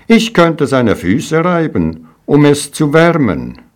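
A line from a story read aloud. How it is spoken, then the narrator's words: Proud exclamation. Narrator (German): rief voller Stolz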